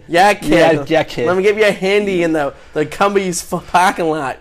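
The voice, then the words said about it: Put-on Boston accent. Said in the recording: “With that stupid voice ... we're making fun of Massachusetts ... It's just Boston.”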